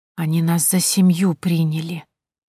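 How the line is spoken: Whisper. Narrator (Russian): шепотом проговорила Тоня

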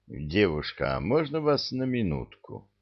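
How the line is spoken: Gentle unhurried invitation. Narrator (Russian): Ласково так, неторопливо, словно на танец приглашал

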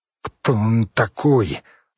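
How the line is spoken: Ferret's strained voice. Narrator (Russian): выдавил хорь

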